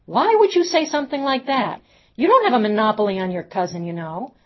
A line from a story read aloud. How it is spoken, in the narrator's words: dealing with Abigail's tears, Pam yelled out to Ava